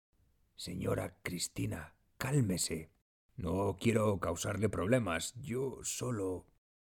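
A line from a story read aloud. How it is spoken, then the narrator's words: Low voice. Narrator (Spanish): le dice en voz baja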